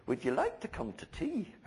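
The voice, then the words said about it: Put-on Scottish accent. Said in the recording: “It's my best Scottish accent.”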